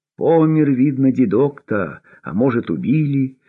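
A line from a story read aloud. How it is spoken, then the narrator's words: Sighing. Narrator (Russian): вздохнул Лёшка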